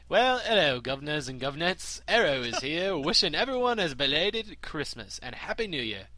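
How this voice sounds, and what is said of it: Put-on British accent. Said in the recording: “you better do this whole goddamn email in a British accent”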